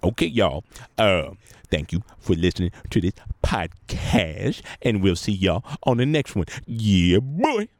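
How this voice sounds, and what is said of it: Imitates another person's voice. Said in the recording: “Does John Witherspoon want to say goodbye to anyone today? ... it always ruins my impression.”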